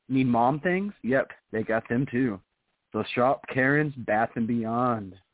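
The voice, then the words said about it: Announcer-style radio voice. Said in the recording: “I said that with my radio voice too”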